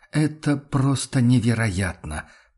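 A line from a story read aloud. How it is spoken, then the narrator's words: Angry muttering. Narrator (Russian): пробормотал он со злостью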